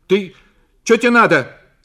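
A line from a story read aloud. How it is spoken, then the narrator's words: Startled, just-woken shout. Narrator (Russian): крикнула Зина, проснувшись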